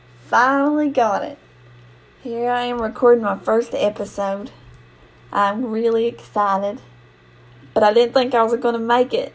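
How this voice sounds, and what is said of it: Very thick regional accent. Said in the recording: “my accent is like thicker than molasses, and sometimes I talk so fast”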